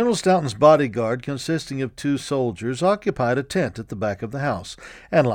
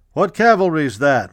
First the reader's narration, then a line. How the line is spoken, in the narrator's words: a voice called out